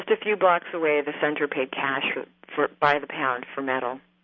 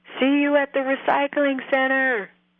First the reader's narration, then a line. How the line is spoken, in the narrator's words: as if he felt bad, Bobby put his hands to his mouth and yelled